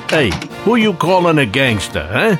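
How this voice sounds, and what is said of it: Put-on Jersey gangster accent. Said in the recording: “You need a dialect? He's on it. From a Jersey gangster?”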